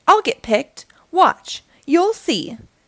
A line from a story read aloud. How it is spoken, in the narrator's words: shouted Little Tree, so they could all hear him